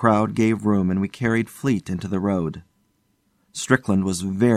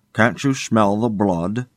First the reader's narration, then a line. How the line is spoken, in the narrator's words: said Fleet